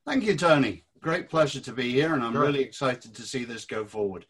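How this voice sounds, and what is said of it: British accent. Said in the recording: “as you may gather from the accent, I was 32 years in the British Army”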